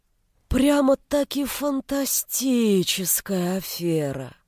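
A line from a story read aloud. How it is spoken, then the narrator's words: Admiring drawl. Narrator (Russian): С восхищением протянул Кобзев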